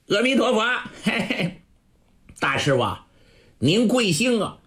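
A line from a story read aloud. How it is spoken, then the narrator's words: Teasing, joking. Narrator (Chinese): 张方故意拿他开玩笑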